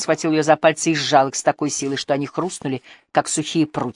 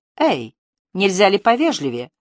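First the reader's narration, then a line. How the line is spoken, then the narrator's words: Offended exclamation. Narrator (Russian): обиженно воскликнула Триция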